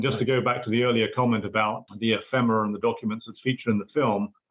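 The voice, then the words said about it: British accent. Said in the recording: “Something tells me from your accent, you're not an American ... are you British ... my accent is still, after 20 odd years, recognizably, I guess, British”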